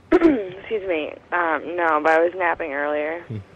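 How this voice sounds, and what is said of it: Strained, fading voice. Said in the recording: “losing my voice ... I did, like, a lot of talking.”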